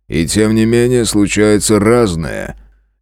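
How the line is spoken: Vague snort. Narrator (Russian): неопределенно хмыкнул страж

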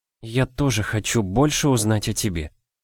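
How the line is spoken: Barely audible. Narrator (Russian): еле слышно сказала она

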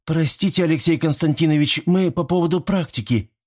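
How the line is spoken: Squeak. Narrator (Russian): пискнула Соня

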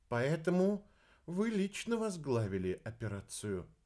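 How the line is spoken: Even voice. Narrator (Russian): ровным голосом произнесла Грик

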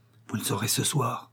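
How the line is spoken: Low firm assertion. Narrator (French): affirma Fredo à voix basse

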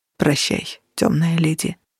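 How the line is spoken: Muttering. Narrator (Russian): пробормотал Менчерес

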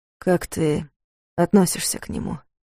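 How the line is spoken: Quiet question. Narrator (Russian): спросил тихо

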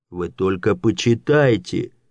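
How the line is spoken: Exclaiming. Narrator (Russian): воскликнул фон Дирксон

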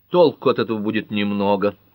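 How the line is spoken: Angry mutter. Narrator (Russian): сердито буркнул судья Мартин

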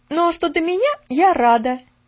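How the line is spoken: Sudden exclamation. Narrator (Russian): Неожиданно воскликнула Нэнси

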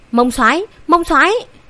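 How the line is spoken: Anxious loud shout. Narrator (Vietnamese): Hoàng Liệt sốt ruột hét to

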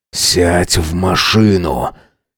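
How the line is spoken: Hoarse command through clenched teeth. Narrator (Russian): Сипло, сквозь стиснутые зубы звучит мой приказ

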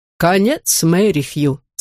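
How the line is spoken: Plain. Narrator (Russian): сказал он

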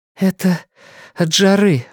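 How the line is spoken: Breathed out. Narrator (Russian): выдохнула

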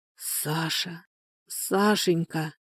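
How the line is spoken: Stunned whisper. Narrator (Russian): прошептала, словно громом пораженная Анфиса

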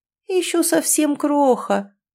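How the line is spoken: Thoughtful drawl. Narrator (Russian): задумчиво протянула женщина

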